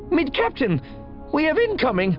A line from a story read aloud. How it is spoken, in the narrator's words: Dalvu said tightly